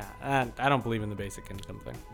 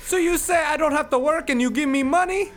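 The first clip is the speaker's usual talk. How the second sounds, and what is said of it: Bad put-on Hawaiian accent. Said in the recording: “Maybe if we did it in all Hawaiian talk... His Hawaiian accent is awful.”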